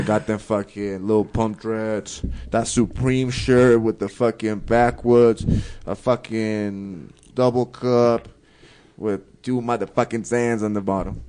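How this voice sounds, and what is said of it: Accented, mumbling speech. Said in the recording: “you always sound like you're mumbling, though. ... because your accent”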